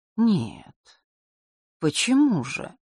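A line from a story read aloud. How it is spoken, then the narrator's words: Slow speech. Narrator (Russian): медленно произнес Огнев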